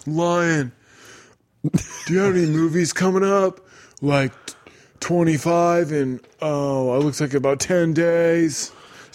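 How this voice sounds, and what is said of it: Imitates another person's voice. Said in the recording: “your best Nicolas Cage impression”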